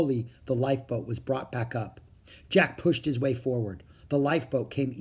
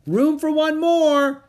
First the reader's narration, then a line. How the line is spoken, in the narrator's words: Annie shouted